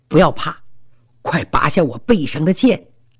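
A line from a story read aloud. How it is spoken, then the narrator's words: Soft, smiling. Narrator (Chinese): 他微微笑了笑，低声说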